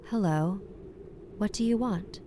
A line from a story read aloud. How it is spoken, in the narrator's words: Her voice was very calm